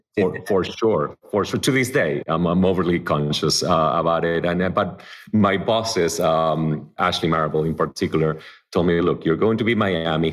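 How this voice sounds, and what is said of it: Argentine-accented English. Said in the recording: “I could go back to Argentina ... my accent was even stronger than it is today”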